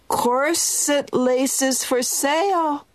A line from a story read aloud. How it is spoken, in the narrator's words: cried the old woman